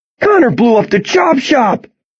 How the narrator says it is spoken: Someone yells

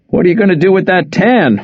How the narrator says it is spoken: Wes asked between laughs

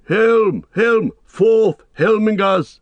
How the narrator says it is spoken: He shouted

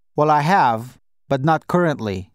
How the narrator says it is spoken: I said

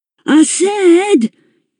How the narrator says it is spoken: shouted, much louder than before

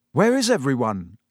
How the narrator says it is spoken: said Harry

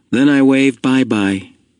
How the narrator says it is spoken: he said in the special sweet voice he used when he spoke to the new child

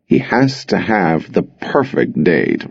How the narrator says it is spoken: Rob drawled

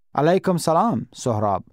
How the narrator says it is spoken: Faisal said

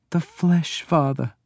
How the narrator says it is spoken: groaned

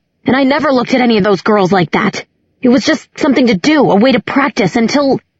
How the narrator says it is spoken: shouted

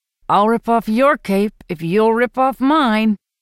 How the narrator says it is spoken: says through gritted teeth

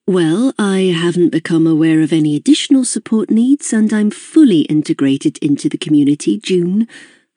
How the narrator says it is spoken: I said

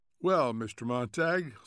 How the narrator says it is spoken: said Mrs

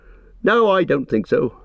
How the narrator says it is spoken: Merry laughed

